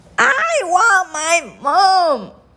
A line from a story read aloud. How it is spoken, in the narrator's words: bawled the little princess